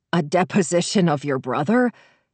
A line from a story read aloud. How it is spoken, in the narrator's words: He said, wheezing with the effort of speech